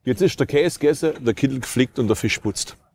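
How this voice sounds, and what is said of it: Strong Swabian dialect. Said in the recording (German): “Können Sie was so krass Schwäbisch sagen, dass ich es nicht mehr verstehe? ... Schwäbeln kann er also, der Gute.”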